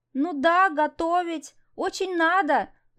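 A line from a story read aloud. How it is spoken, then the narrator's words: Pleading. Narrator (Russian): взмолилась она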